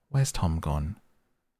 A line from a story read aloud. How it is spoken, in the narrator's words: uneasily and say